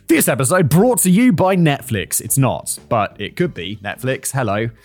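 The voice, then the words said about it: Advertisement announcer voice. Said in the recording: “my ad read voice”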